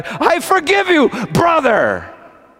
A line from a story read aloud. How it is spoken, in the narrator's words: She cried out